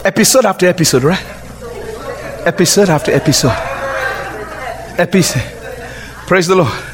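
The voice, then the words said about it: Speaker's own accent. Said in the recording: “I forgot I have an accent.”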